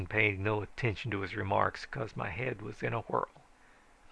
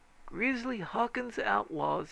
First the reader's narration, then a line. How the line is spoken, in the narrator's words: he said, and added bitterly